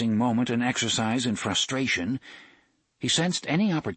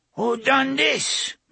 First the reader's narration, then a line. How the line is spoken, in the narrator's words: Miguel cried